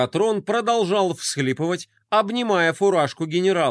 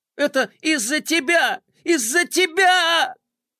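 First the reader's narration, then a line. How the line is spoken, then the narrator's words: Bitter sobbing. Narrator (Russian): Адъютант зашелся в горьких рыданиях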